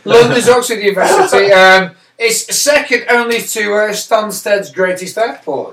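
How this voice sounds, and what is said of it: Northern English accent. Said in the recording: “my Northern accent”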